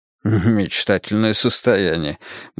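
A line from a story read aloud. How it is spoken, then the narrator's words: Muttering under breath. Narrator (Russian): буркнул Грейтхаус себе под нос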